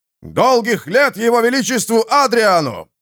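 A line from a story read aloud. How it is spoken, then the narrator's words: Shouted in unison. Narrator (Russian): в один голос выкрикнули офицеры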